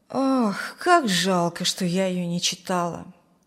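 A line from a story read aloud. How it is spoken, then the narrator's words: Wistful sigh. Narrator (Russian): вздохнула Зина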